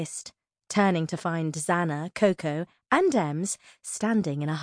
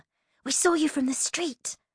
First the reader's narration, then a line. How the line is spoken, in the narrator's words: Coco whispered excitedly